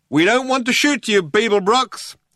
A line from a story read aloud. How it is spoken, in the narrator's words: shouted the figure